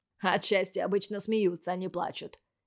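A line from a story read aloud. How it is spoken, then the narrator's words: Cheerful snort, younger twin. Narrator (Russian): весело фыркнул младший из близнецов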